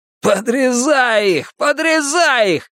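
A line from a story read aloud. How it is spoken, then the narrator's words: Shouted. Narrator (Russian): крикнул паук Гартон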